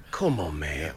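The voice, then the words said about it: Impression of a TV catchphrase. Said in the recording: “Your new impression”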